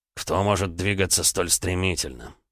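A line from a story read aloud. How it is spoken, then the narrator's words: Muttered. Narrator (Russian): пробормотал полковник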